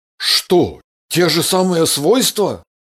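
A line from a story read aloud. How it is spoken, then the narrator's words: Surprised exclamation. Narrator (Russian): удивленно воскликнул Андрей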